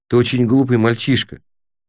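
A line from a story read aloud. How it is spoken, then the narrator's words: Calm. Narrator (Russian): спокойно сказал Крис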